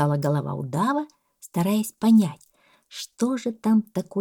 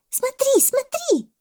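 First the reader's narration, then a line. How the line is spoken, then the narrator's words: Excited shout. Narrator (Russian): закричала мартышка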